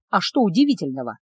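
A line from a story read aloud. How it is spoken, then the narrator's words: Quiet inward snort. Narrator (Russian): хмыкнул про себя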